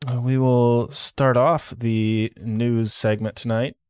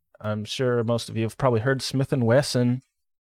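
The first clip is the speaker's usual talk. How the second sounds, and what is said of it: Twangy drawl on a name. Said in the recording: “I said that with some twang.”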